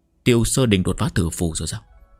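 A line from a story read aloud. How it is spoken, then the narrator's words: Soft laugh. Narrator (Vietnamese): Trì Úy khẽ cười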